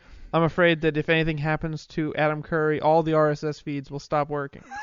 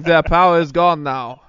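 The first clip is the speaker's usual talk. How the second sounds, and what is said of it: Anthony Hopkins impression, weird accent. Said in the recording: “like Anthony Hopkins, you know, with a weird accent and a big hat”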